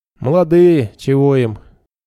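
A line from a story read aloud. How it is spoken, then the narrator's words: Scoffing grunt. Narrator (Russian): Хмыкнул кто-то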